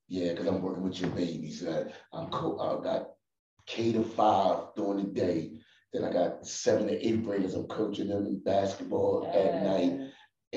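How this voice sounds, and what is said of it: Strained, tired-sounding voice. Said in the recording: “you could probably tell that my voice is kind of strained ... I'm just all the time, yo, howling, repeat myself.”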